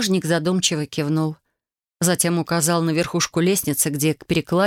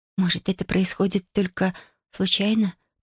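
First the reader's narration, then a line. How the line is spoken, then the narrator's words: Whispered. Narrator (Russian): прошептала Юми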